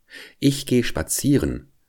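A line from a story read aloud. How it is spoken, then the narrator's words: Plain. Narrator (German): sagte der Igel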